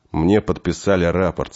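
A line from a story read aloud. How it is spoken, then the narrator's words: Calm reply. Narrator (Russian): спокойно ответил Денис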